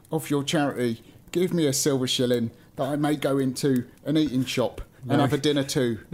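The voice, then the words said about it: Put-on Cockney accent. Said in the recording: “Now he's a Cockney.”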